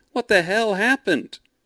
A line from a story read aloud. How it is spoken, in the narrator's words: he cried